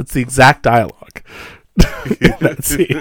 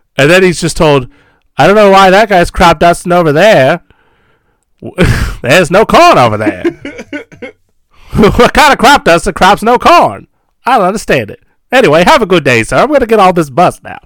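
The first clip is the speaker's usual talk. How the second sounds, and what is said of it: Voice like an old mono movie. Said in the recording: “You even sounded like you were in mono for a second. So you sounded like an old movie on my headphones.”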